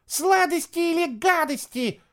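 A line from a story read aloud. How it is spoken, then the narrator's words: Squeaky children's voices. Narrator (Russian): запищали тыквоголовые обманщицы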